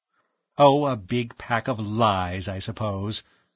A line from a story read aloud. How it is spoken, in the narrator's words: Edith Shaw said scornfully